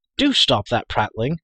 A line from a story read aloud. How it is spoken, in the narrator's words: cried Terran